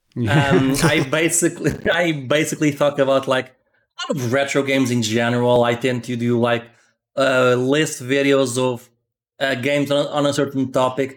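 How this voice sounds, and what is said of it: Portuguese accent. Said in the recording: “this accent is from Portugal, hence the very fake accent.”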